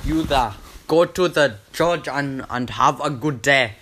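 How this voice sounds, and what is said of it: Put-on African accent, weak attempt. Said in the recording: “I'm not really good at that one either. African accent.”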